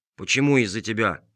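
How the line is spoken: Grumbled. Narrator (Russian): буркнул мастер Виноградинка

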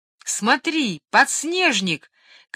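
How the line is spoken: Joyful shout. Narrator (Russian): крикнул старший радостно

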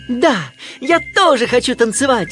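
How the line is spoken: Shouting duckling. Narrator (Russian): крикнул утенок

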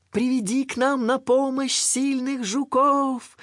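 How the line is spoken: Shout after someone. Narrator (Russian): успела крикнуть она ему вслед

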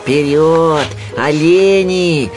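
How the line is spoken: Joyful shout. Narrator (Russian): радостно крикнул Винни

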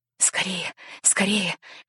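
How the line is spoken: Boy whispering. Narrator (Russian): шептал мальчик

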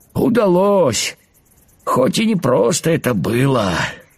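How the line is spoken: Tired grasshopper replying. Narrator (Russian): устало ответил кузнечик

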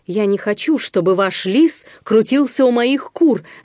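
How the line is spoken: Shouting. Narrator (Russian): закричал Амос

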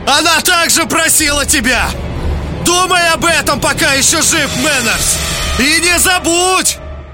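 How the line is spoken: Loud shout over wind. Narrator (Russian): набрав воздуха и глубоко вдохнув, чтобы не потерялось в ветре ни одного слова, Лангрен крикнул

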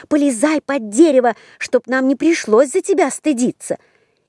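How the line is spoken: Sisters shouting. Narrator (Russian): крикнули сестры

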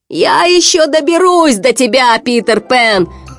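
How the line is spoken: Shouting after them. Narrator (Russian): крикнул им вслед Крюк

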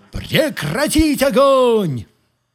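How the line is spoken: Shouting. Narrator (Russian): я крикнул

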